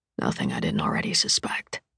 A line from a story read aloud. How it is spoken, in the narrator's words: whisper